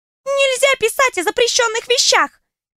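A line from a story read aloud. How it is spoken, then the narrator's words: Squeaky voice from below. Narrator (Russian): пискнула откуда-то снизу Иша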